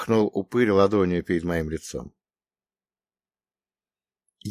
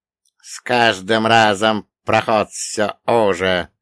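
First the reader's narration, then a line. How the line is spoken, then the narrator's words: Grumbling boatman. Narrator (Russian): проворчал лодочник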